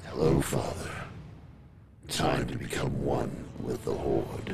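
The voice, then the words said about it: Weird monster voice. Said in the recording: “in a weird voice”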